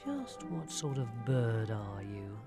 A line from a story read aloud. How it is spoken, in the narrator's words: Ivan muttered to himself